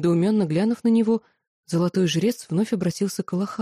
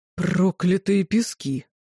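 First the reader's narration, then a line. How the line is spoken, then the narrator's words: Groan of realization. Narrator (Russian): простонал, осознав, о чем говорит внук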